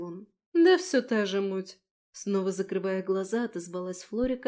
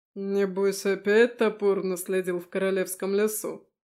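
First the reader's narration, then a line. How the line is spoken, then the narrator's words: Smirking snort. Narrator (Russian): хмыкнул Бенедикт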